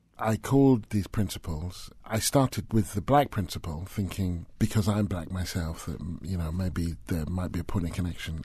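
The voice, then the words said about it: British accent. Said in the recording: “this British accent”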